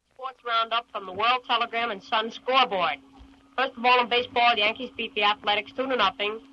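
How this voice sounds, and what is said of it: Child with New York accent. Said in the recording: “imitating newsmen, imitating sports announcers ... my original New York accent”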